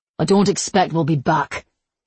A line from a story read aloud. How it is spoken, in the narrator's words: he spat